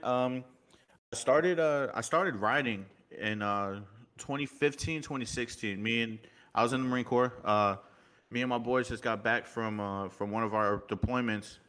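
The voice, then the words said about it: Slight New York accent. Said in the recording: “I kind of have that little bit of New York emphasis ... You kind of have that little accent”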